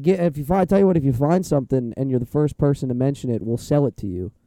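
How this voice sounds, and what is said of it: Badly strained, worn-out voice. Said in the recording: “how bad my voice is, but it's completely shot.”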